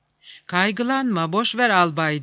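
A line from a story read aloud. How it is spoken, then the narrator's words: Sleepy voice. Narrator (Turkish): diyordu uykulu bir sesle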